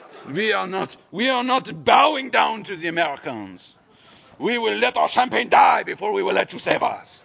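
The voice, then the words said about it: Terrible put-on French accent. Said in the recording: “It's a terrible French accent.”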